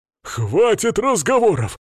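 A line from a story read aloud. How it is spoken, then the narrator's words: Exclaiming. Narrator (Russian): воскликнул Свари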